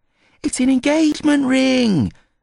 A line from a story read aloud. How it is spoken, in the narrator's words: Olivia squeaked